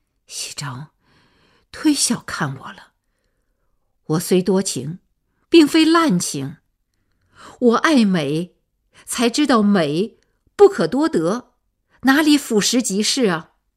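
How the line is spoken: Sighing. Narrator (Chinese): 阿钱叹了口气

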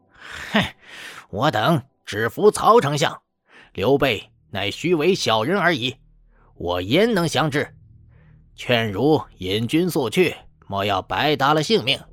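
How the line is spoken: Scornful laughing rebuke. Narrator (Chinese): 陈应叱咤大笑，骂道

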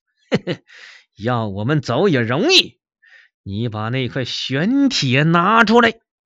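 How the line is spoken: Sly sinister chuckle. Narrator (Chinese): 小白脸嘿嘿的奸笑两声

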